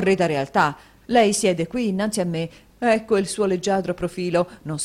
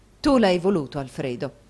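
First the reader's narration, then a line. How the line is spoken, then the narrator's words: Softened reproach. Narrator (Italian): rispose Madama Mantalini ancora in tono di rimbrotto ma rammorbidito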